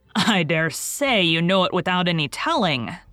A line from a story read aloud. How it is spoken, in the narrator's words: chuckled Mr